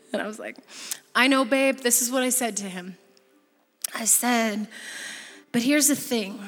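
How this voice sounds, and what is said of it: Usual voice. Nothing is said of it.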